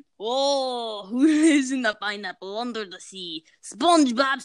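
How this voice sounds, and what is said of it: Poor put-on Russian accent, singing. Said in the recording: “The SpongeBob theme song in a Russian accent ... I have to do it in a Russian accent? I'm not really good with my accents ... Oh my god, that was terrible”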